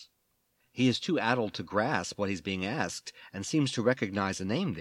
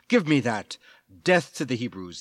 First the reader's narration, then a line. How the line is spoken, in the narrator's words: he barks